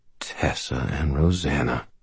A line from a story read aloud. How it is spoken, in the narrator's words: I said quietly